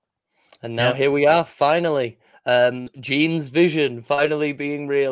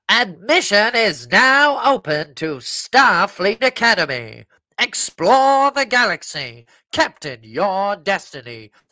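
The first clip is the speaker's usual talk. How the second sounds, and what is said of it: Put-on announcer voice. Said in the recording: “I'm going to do the voice. I'm going to do the voice now.”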